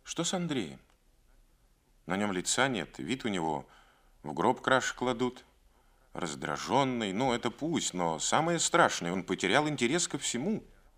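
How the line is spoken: Quiet question. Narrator (Russian): Галина тихо спросила

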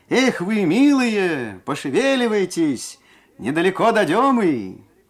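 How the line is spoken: Cheerful coachman shouting. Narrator (Russian): кучер Трофим весело крикнул

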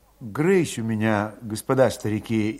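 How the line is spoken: Indistinct whisper. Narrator (Russian): невнятно шептал Федот

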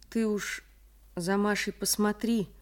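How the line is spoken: Sad request. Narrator (Russian): попросил Михаил грустно

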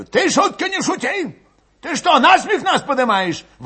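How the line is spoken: Old man yelling close by. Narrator (Russian): Вопил у него под ухом старик Кашулин

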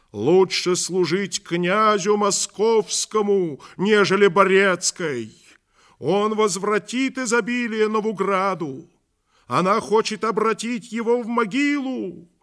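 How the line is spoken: Crowd shouting. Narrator (Russian): Тайные друзья Иоанновы кричали перед домом Ярославовым

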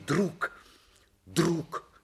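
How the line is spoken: Ardent whisper. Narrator (Russian): пылко прошептал он

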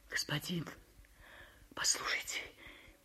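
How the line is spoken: Muffled whisper. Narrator (Russian): прошептала приглушенным голосом

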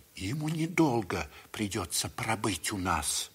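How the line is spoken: Whispering doctor. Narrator (Russian): прошептал доктор

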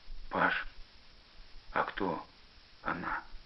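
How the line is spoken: Very quiet whisper. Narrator (Russian): самым тихим шепотом Костя спросил

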